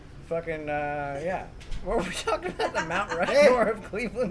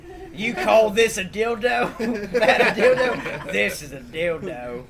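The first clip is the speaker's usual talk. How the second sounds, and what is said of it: Bad put-on Australian accent. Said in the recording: “What a shitty fucking Australian accent.”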